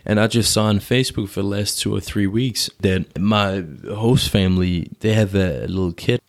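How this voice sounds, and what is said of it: American accent. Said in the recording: “I used to live in the States, which is why I have my American accent”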